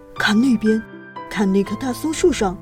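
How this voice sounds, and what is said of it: Soft whispered voice. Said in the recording (Chinese): “小声地说”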